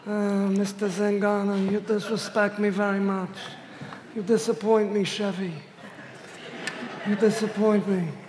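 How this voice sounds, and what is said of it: Raspy mob-boss character voice. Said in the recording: “Just imagine that this is what it would be like if your pastor were Don Corleone.”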